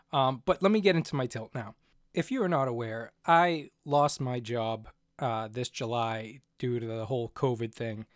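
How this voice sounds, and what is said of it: Slightly hoarse voice. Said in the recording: “my voice being a little hoarse, I'm just getting over some kind of sickness”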